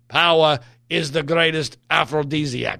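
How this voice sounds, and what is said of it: Poor imitation of another person's voice. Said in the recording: “terrible Henry Kissinger impression”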